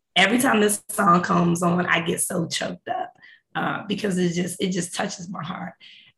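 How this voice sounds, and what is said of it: Hoarse, froggy voice. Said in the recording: “I can't sing and my voice has a frog in it because we're up early this morning”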